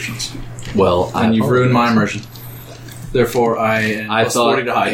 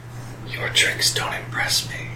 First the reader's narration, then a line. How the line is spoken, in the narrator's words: in your ear whispered